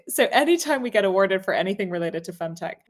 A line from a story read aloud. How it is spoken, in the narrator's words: I laugh